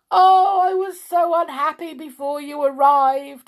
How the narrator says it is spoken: he wailed

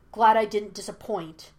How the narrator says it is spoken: snapped Zuko

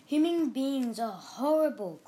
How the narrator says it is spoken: cried Betty

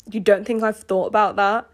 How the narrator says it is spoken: He snapped

